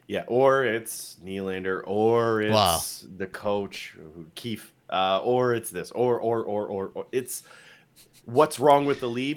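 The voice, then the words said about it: Impression of sports media pundits. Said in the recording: “I liked your Seal media impersonation there.”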